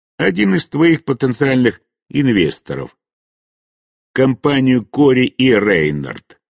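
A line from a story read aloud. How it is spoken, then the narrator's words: Plain. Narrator (Russian): ответил я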